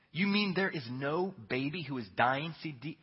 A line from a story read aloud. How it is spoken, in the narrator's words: said DiVincenzo